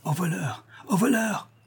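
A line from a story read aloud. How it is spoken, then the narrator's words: Shouting. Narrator (French): criait le marquis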